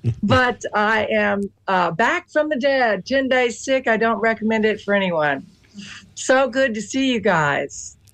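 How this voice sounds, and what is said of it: Slightly hoarse voice. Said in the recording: “I'm still a little hoarse here”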